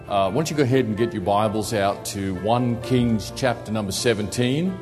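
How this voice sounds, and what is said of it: Australian accent. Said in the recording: “get used to my accent ... the Holy Spirit can even work through an Australian”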